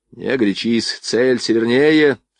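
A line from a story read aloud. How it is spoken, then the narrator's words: Calm shouting. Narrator (Russian): спокойно покрикивал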